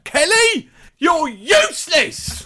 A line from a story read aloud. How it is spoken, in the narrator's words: someone at some point shouted out